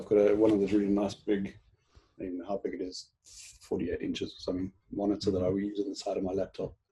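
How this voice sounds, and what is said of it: South African accent. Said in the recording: “you obviously know South Africans if you picked up my accent.”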